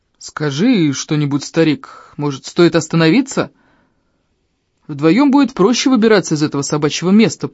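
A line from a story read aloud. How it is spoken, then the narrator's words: Booming drone. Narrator (Russian): прогудел Ильм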